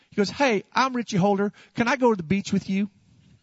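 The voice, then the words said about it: Imitated North Carolina accent. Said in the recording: “they're from North Carolina, so they speak with an accent.”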